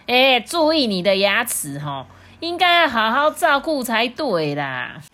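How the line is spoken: Loud. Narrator (Chinese): 鳄鱼啊，却大声的对他说

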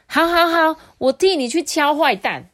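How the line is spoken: Joyful shout. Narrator (Chinese): 小狐仙呐，欢喜的大叫说

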